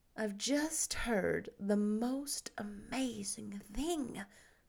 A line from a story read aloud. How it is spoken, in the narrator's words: she whispered